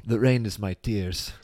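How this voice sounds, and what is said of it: Jean-Claude Van Damme impression. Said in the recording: “nice accent ... Nice Van Damme impression.”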